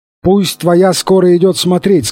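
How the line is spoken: Plain. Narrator (Russian): сказал он

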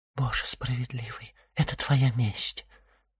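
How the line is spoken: Whisper. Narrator (Russian): прошептала госпожа Данглар

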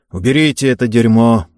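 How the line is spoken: Hasty mutter. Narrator (Russian): успел буркнуть Карл

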